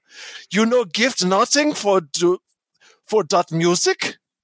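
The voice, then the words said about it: Put-on foreign accent. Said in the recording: “I'm going to go for the accent.”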